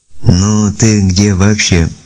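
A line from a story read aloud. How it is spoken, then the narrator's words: Capricious girlish drawl. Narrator (Russian): капризно протянула девушка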